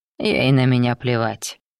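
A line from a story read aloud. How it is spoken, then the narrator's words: Gloomy demon voice. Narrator (Russian): мрачно сказал демон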